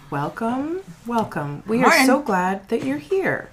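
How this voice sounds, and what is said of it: Calm deadpan public radio announcer voice. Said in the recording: “your NPR voice ... National Public Radio ... That level ... Of deadpan”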